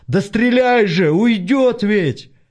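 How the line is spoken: Loud desperate yell. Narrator (Russian): Артем, не выдержав, заорал, что было сил

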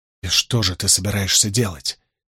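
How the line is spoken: Quiet question. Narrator (Russian): тихо спросил Перин

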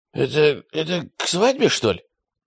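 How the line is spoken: Strangled voice question. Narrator (Russian): задушенным голосом спросила Аннушка

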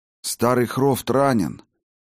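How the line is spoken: Tired. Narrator (Russian): устало произнес Хаген

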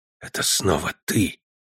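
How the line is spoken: Whisper. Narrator (Russian): прошептала она

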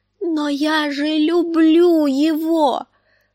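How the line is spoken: Distraught frightened moan. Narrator (Russian): простонала Санса в смятении и испуге

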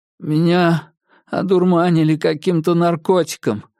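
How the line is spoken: Lifeless voice. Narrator (Russian): проговорил я безжизненным голосом

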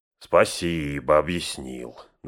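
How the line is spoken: Mocking reply. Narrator (Russian): насмешливо отозвался Мэри

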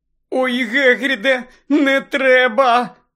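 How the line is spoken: Moaning. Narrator (Ukrainian): застогнала Герміона

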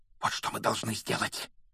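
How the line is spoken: Fervent whisper. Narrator (Russian): горячо прошептал он

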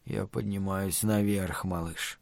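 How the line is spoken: Muttered. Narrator (Russian): пробормотал Стью

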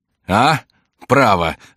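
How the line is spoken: Laughing loudly. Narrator (Russian): отвечал Коконна с хохотом

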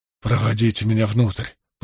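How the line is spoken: Moan. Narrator (Russian): простонал он

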